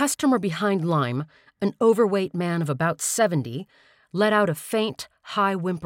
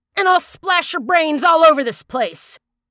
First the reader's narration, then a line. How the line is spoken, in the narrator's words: he shouted at one of the mechanics